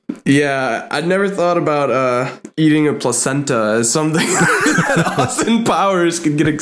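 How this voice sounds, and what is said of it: Usual voice. Nothing is said of it.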